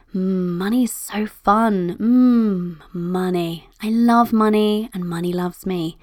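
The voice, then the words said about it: Creepy, exaggerated playful voice. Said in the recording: “I made it borderline creepy ... my creepy voice”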